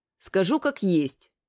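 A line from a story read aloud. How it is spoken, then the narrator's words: Calm. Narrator (Russian): начал я спокойно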